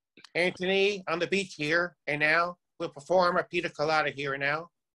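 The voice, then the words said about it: Imitates another person's voice. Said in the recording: “impersonations ... Ed Sullivan's always fun to do”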